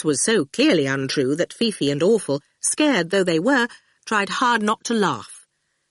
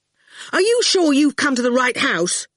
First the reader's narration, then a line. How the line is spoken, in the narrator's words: he burst out angrily